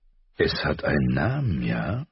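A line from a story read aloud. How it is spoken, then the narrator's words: Father sighing. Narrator (German): Ihr Vater seufzte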